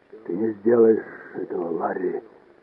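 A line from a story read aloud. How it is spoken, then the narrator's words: Barely audible hoarse croak. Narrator (Russian): Еле прохрипел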